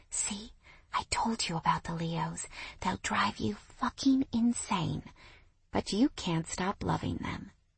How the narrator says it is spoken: whispering

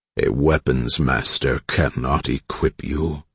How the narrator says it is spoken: growled with a deep rumble

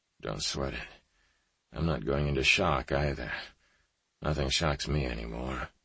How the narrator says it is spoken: he groaned

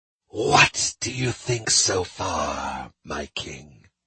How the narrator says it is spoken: Rex laughed

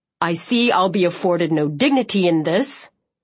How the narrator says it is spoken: growled

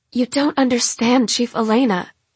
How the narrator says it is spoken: Lark says urgently

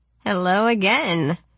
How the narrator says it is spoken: the redhead calls, laughing

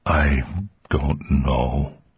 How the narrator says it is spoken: he said miserably

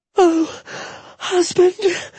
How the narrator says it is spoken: Jetta cried

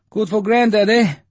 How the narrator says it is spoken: Leocha panted

